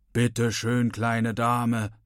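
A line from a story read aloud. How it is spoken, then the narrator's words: Thundering. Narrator (German): donnert er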